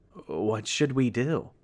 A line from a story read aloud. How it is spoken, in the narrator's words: his wife asked in a shaky voice